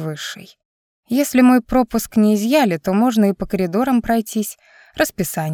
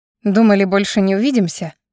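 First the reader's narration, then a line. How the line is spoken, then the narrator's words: Snorting. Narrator (Russian): фыркнула я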